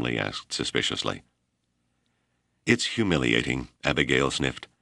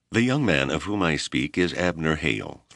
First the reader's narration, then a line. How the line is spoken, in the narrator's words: Thorne said stiffly